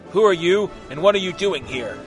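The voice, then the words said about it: Gruff character voice. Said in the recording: “said in a gruff voice”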